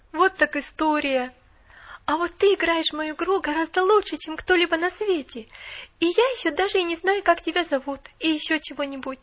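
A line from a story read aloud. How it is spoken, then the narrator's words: Awed exclamation. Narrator (Russian): воскликнула Поллианна с благоговейным страхом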